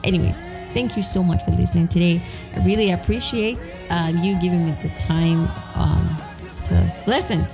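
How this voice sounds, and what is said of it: Slightly raspy voice. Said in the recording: “my voice is a little raspy. I just woke up, and that happens very frequently. You know, my voice is just like that.”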